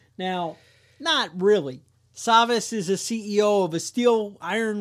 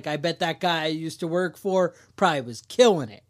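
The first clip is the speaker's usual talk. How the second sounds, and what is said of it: Put-on New York City accent. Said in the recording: “that was my New York City accent. You like that? Or maybe it was my Guyanese accent.”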